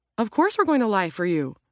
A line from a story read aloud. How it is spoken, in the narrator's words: Roe exclaimed